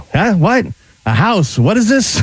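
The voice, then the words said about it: Imitation of a confused man's voice. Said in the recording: “You do a pretty good imitation.”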